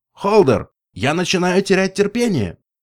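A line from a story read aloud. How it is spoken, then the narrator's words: Shouting unicorn. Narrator (Russian): выкрикнул единорог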